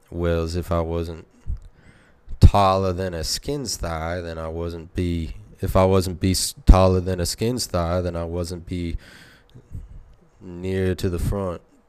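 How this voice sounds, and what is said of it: Put-on accent. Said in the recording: “what exactly is that accent?”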